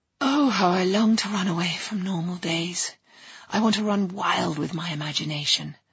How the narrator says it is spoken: Alice sighs

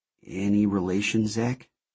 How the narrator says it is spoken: She asked quietly

